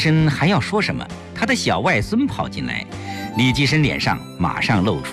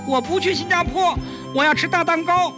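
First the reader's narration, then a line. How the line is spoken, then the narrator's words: Child clamoring noisily. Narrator (Chinese): 小外孙吵嚷道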